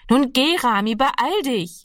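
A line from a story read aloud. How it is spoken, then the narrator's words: Calling out again. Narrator (German): rief ihm Annegret noch einmal zu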